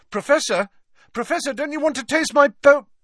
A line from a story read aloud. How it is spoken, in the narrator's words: called Harry desperately